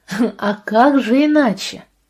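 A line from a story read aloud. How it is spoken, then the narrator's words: Laughing. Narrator (Russian): Засмеялся Генрих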